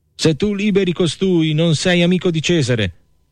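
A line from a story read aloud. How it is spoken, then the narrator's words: Crowd shouting. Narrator (Italian): gridava il popolo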